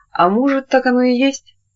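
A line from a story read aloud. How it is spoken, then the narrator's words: Said with a chuckle. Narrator (Russian): Тамара, хохотнув, сказала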